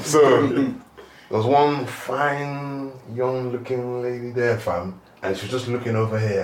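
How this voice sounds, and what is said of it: British accent. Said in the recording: “I'm just there speaking my British accent”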